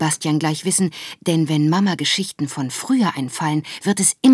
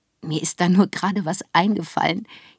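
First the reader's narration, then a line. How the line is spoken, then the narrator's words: Giggling. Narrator (German): kichert Mama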